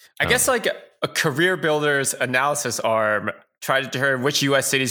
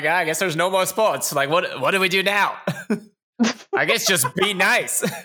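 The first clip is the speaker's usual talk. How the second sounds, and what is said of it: Terrible put-on Boston accent. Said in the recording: “that's how a do terrible you... accent.”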